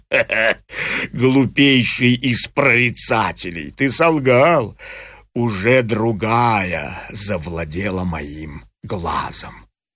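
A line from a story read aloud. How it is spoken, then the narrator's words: Rough laugh, exclaiming. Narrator (Russian): Грубо засмеялся в ответ прорицателю Полифем и воскликнул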